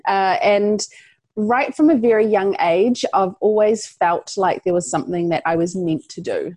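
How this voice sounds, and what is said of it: New Zealand accent. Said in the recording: “I'm from New Zealand, if you pick up an accent there”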